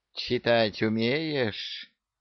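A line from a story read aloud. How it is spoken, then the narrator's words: Sweet hiss. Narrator (Russian): ласково прошипела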